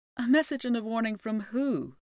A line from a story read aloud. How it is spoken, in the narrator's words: asked Maeve